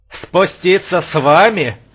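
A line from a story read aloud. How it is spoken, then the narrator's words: Laughing. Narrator (Russian): Дат рассмеялся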